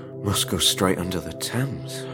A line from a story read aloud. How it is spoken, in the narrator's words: whispered Harrison